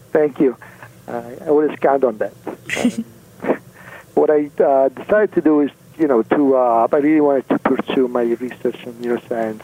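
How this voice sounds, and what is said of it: Italian accent. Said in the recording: “you can guess I'm Italian from my accent... it's lovely”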